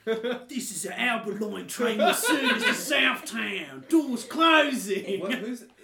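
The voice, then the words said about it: Theatrical fantasy-style announcer voice. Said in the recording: “Can the train voice have like a cool like fantasy voice, like it's like Sir Ian McKellen? ... It's Ian McKellen doing a voice. ... It's Ian McKellen doing one of his classic characters.”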